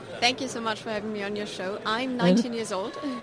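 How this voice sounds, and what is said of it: British accent. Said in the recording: “You have this wonderful British accent.”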